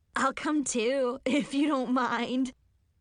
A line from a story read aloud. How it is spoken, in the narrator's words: Chloe giggled